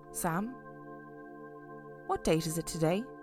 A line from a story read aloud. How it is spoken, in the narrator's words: asked quietly